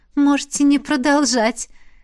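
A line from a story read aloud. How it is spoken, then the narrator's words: Giggling. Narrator (Russian): хихикнула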